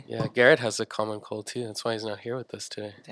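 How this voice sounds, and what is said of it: Rough, congested sick voice. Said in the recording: “my voice is ... a little, ... It's a little bad right now. ... A little sicky. Just the sniffles though.”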